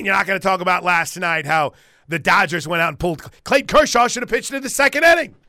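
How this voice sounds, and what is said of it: Imitates another person's voice. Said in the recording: “That's a pretty good impersonation. ... That was not bad.”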